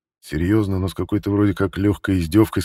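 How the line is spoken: Plain. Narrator (Russian): сказал Барулин

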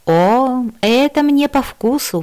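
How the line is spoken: Exclamation. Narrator (Russian): воскликнула я

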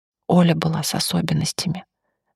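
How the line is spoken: Confidential whisper. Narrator (Russian): доверительным шепотом сообщил Влад

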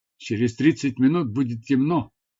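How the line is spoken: Plain. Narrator (Russian): сказал я Тавии

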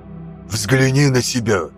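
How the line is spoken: Hissing. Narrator (Russian): прошипел Каэсарун

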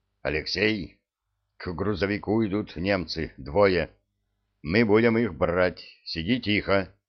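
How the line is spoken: Tragic whisper. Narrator (Russian): Я трагически зашептал

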